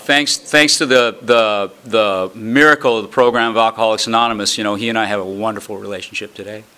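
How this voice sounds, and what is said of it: Slightly hoarse voice. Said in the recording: “I'm a little hoarse, actually. I was wondering how it was going to work today because I was shouting words of encouragement to the referees last night.”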